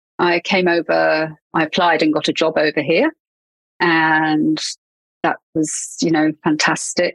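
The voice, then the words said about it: English accent. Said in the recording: “you can probably tell from my accent that I'm English”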